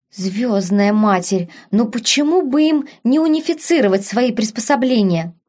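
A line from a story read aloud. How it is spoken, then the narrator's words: Irritated whisper. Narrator (Russian): раздраженно шептала принцесса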